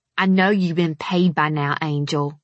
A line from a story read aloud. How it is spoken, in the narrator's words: he said in a growl